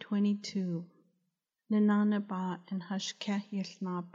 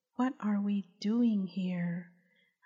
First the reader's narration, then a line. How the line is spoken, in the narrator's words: his wife hoarsely whisper